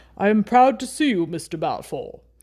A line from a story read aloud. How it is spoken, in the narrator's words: said in a fine, deep voice